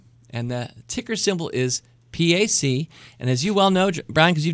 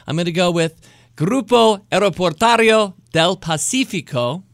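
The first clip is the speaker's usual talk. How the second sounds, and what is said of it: Fake Spanish accent. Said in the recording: “This one allows me to trot out my fake Spanish accent. I never did take Spanish”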